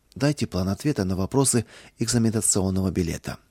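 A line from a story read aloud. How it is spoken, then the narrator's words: Quiet request. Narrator (Russian): Кузнецов тихо попросил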